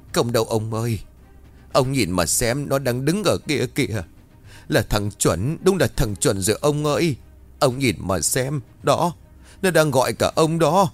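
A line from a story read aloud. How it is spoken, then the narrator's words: Tearful old woman's reply. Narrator (Vietnamese): Bà Hiền lắc đầu ngoậy ngoậy mếu máo rồi đáp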